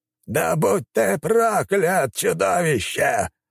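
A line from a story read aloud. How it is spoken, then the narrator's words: Shout from inside ice creature. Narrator (Russian): выкрикнул маг, прятавшийся внутри ледяного создания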